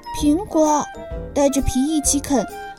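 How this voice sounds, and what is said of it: Soft, quiet voice. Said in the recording (Chinese): “小声说”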